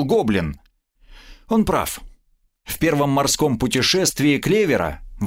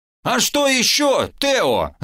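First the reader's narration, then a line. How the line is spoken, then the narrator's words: Yelling. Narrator (Russian): заорал шкипер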